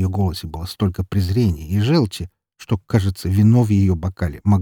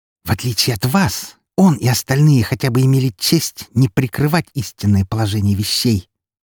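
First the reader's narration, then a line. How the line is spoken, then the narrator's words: Menacing hiss. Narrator (Russian): прошипела она с угрозой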